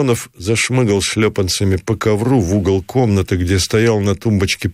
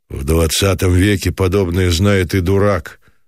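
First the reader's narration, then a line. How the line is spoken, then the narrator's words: Grim and curt. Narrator (Russian): отрезал мрачно Самсонов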